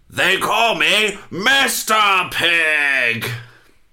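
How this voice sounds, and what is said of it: Terrible impression of movie line. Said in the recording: “to do a terrible impression.”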